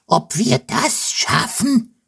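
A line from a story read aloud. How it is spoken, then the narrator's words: Thoughtful squeak. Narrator (German): quiekt nachdenklich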